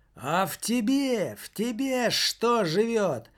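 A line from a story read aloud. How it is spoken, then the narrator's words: Teenager's sudden shout. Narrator (Russian): закричал вдруг подросток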